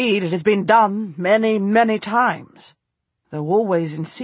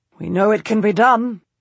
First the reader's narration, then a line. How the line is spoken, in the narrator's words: he says